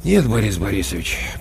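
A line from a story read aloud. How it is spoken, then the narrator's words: Sighing. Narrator (Russian): почему-то вздохнув, сказал Коля Корноухов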